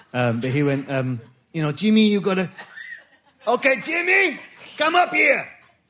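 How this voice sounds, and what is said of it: Put-on Mexican accent. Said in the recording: “please forgive the accent, but I kind of have to do it like this. Sorry, everyone, if there's any Mexicans here.”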